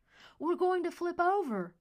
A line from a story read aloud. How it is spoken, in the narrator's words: Merritt yelled